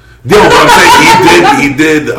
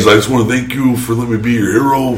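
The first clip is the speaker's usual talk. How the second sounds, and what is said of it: Imitates another person's voice. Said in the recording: “best impression of Bret Hart is Rich Swann”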